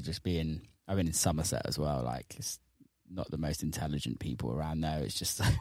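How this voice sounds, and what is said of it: Strong English accent. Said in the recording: “Your English accent has got so much stronger than what it was like.”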